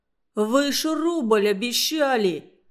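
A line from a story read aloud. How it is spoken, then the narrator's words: Strained forced words. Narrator (Russian): выдавил из себя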